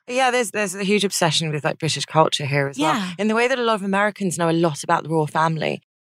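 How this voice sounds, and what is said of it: British accent. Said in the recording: “you have British accent”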